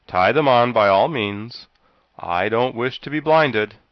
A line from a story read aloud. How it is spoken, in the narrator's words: exclaimed Jack